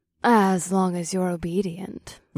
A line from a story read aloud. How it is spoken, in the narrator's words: reminded her in a demure voice